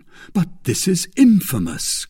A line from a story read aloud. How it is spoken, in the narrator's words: cried he